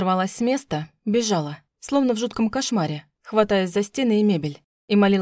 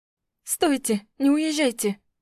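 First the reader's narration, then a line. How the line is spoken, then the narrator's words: Hoarse rasp. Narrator (Russian): Прохрипела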